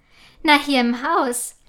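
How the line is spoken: Laughing. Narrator (German): lacht Papa

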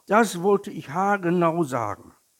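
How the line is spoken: Small tiger calling. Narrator (German): rief der kleine Tiger

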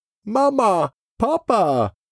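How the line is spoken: Calling out. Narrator (German): ruft Freddy

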